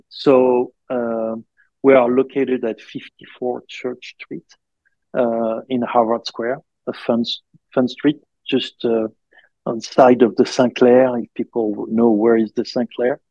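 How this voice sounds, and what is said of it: Speaks English with a noticeable accent. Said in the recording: “I hope my accent is not too deep, and people will not have too hard time to understand”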